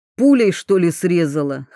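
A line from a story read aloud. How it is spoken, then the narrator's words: Snorting. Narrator (Russian): хмыкнул он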